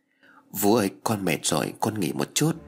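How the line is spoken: Tired girl speaking softly. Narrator (Vietnamese): với những mệt mỏi, con bé khẽ nói

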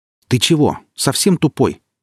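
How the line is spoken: Loud question. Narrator (Russian): громко спросил Гриф

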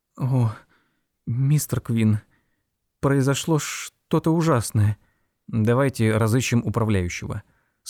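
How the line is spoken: Calm. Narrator (Russian): спокойно сказал Эллори

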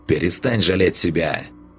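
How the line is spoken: Barked. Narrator (Russian): рявкнул голос

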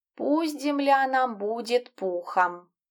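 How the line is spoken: Tragic sigh, cat. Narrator (Russian): трагически вздохнул кот

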